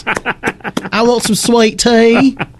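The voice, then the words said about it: Thick Southern drawl. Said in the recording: “her southern accent get thicker ... that drawl is thick ... the drawl definitely gets a lot thicker”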